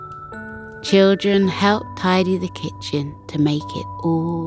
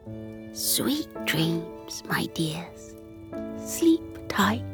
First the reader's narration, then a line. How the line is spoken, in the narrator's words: Grandma Pattycake whispered